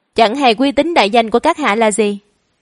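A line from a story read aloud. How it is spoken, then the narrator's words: Warm, smiling. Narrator (Vietnamese): Hắn mỉm cười ấm áp với Thác Bạc Nhung, nói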